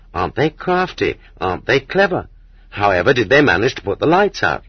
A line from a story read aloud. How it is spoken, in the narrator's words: People remembered that the lights had gone out and exclaimed in admiration